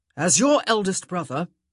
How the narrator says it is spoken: he growled

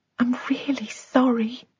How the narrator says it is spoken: Sabine whispered

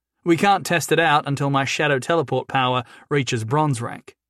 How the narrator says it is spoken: Jason said

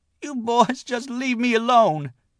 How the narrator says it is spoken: Jenny Penn wailed

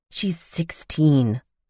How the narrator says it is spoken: I growled in a low voice

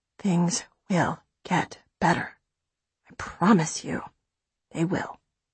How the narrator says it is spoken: She's quiet a moment, then whispers

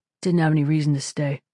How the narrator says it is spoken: he mumbled

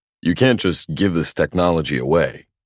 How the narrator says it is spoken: Lance scoffs

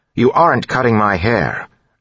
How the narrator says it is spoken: Elland said firmly

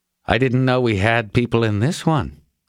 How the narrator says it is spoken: Brogan said

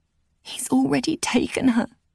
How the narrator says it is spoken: I croaked

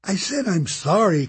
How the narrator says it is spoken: Kate cried

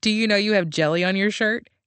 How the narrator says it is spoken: She laughed

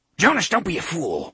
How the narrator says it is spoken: Lengil snarled

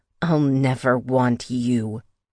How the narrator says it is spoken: growled

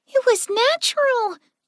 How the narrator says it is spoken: Clover said excitedly

